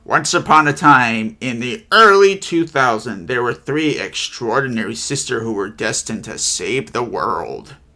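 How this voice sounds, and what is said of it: Imitates SpongeBob narrator voice. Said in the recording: “I gotta try the SpongeBob voice.”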